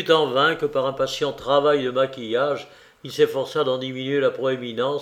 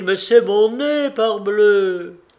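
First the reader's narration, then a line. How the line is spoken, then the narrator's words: Exclaimed. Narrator (French): s'écria-t-il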